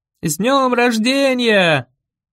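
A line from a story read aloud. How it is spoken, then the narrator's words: Group shouting. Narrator (Russian): закричали они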